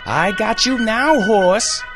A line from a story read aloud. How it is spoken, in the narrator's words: He screamed